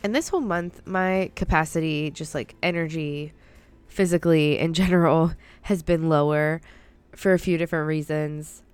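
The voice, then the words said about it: Voice sounding ill. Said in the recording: “If you can't tell by my voice, I am under the weather”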